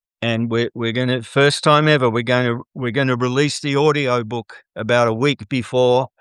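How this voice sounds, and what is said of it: Non-American accent. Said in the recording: “every American says, we don't care what you say. We just like listening to that accent.”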